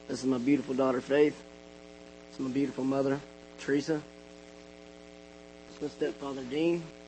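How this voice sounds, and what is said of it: Hoarse, strained voice. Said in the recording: “excuse my voice. I've lost it a couple times in a couple days.”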